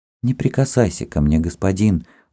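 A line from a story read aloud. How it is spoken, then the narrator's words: Agitated whisper. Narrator (Russian): взволнованно шептала она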